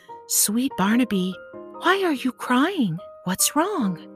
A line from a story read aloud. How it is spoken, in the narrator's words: gently said